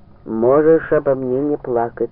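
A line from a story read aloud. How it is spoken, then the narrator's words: Plain. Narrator (Russian): сказала Русь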